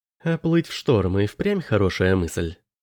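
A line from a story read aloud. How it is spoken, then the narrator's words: Plain. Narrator (Russian): сказала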